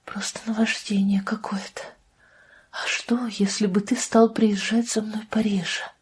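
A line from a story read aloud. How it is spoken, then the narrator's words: Whisper. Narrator (Russian): прошептала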